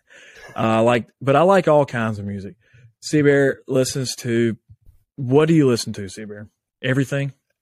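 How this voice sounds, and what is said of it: Country-sounding accent. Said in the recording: “I listen to mainly country, if you can't tell by my voice.”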